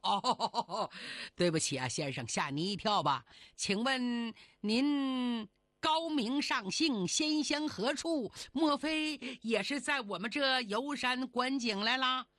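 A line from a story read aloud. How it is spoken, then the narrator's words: Ingratiating, smiling. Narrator (Chinese): 那个男的满脸堆笑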